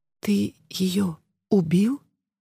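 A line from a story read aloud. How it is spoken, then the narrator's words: Involuntary whispered question. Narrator (Russian): спросила, невольно перейдя на шепот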